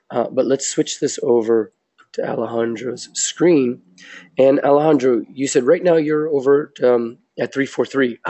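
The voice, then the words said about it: Congested voice from a cold. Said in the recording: “I have a little bit of a cold ... I sound much worse than I actually am.”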